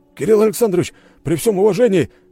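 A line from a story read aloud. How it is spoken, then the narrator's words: Shouted, a guardsman. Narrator (Russian): крикнул один из гвардейцев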